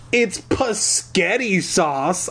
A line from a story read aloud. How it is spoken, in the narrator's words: I muttered